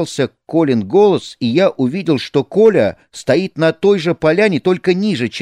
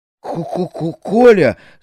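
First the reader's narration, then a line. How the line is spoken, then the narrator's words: Stuttering question. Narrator (Russian): заикаясь, спросил я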